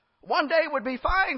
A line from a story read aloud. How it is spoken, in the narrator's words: exclaimed